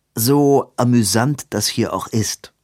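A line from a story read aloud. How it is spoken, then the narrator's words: Plain. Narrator (German): sagte Edwin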